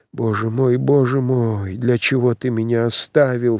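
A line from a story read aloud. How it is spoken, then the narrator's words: Anguished moaning. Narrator (Russian): стонал он в смертной тоске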